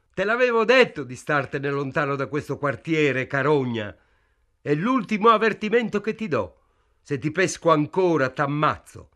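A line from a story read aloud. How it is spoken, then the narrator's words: Policeman shouting. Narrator (Italian): il poliziotto gridò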